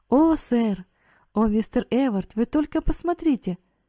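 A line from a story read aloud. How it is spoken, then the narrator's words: Excited exclamation. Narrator (Russian): воскликнул Карл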